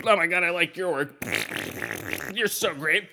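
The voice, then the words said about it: Imitates a gushing LA person. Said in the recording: “my imitation of LA in a nutshell.”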